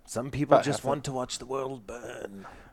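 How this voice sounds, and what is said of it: Impression of Alfred from Batman. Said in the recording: “doing his Alfred impression from the Christopher Nolan Batmans”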